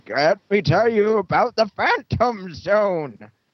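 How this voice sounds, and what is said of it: Poor impression of General Zod. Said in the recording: “That was a terrible impression.”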